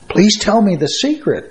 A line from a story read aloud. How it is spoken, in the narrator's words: begged